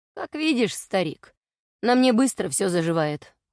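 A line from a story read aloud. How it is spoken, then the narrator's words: Smirking. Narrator (Russian): хмыкнул Бестал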